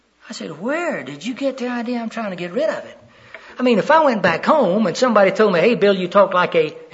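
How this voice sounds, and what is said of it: Southern American accent. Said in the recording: “your southern accent”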